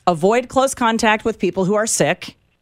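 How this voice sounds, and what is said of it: Imitation of a health department spokesperson. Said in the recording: “do an impersonation ... that is the PR person for the Jackson County Health Department”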